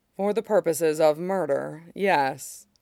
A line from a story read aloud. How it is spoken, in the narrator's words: Mace says dryly